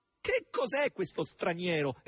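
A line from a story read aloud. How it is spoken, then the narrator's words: Loud dismayed exclamation. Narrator (Italian): esclamò nel suo sgomento, a voce così alta che coloro che passavano davanti alla panchina si voltarono verso di lei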